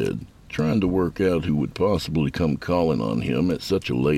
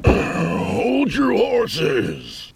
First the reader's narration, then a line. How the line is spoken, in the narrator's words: he called out